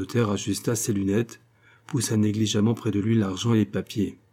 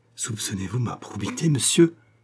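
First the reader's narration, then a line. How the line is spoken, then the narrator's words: Trembling murmur. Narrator (French): murmura-t-il d'une voix tremblante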